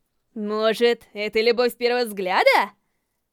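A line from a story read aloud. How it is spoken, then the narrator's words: Cheerful laughter. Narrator (Russian): Она весело рассмеялась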